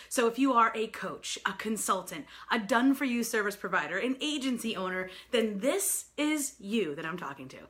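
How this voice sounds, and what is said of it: New York accent. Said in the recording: “I am a native New Yorker, so pardon my crazy accent.”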